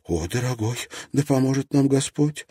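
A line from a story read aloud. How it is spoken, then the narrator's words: Tearful. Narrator (Russian): сквозь слезы сказала Тесс Кулуму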